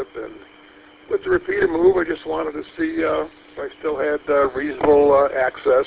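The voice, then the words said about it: Raspy, slightly hoarse voice. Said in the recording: “my voice is a little bit raspy.”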